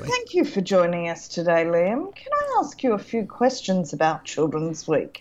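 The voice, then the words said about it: Mock journalist interviewer voice. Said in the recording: “put on my journalist voice”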